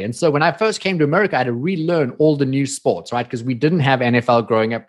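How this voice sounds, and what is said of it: South African accent. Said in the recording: “I came from South Africa. If you guys didn't get the accent”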